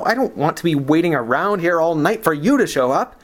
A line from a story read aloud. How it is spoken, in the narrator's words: he snapped